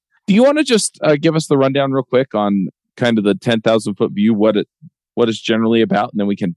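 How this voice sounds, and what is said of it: Usual voice. Nothing is said of it.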